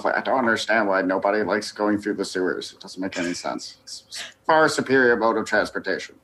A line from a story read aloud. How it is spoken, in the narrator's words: muttering to himself